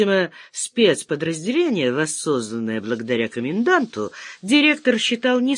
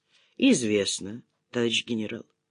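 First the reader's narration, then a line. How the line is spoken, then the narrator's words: Calm answer. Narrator (Russian): спокойно ответил Сыч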